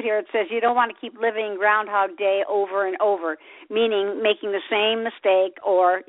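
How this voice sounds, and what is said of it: Slightly raspy voice. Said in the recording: “you're going to hear my voice. It's a little raspy”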